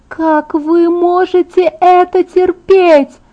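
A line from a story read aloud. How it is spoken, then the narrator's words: Young woman's high clear moan. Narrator (Russian): простонала девушка высоким и чистым голосом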